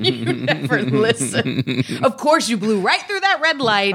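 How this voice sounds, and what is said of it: Scolding schoolmarm voice. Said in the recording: “you want like a shame inducing voice ... can you give me the school marm? Version”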